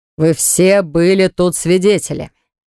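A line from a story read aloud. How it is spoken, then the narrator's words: Deep bass voice. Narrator (Russian): Баграт пробасил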